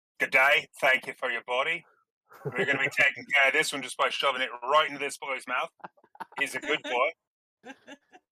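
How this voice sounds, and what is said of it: Put-on Australian accent. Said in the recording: “do they have to speak with an Australian accent”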